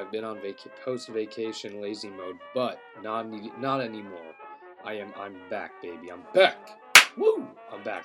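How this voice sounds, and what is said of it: Sick, rough sore-throat voice. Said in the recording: “my voice is a little fucked up. It's because I'm sick... My throat is sore”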